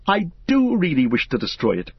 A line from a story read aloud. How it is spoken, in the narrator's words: cried Frodo